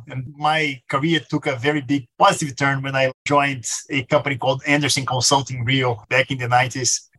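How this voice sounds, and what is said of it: Brazilian accent. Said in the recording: “this strange accent, I'm from Brazil, born and raised, born in Rio”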